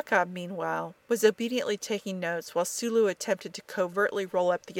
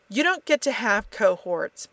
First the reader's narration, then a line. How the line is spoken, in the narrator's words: McCoy snarled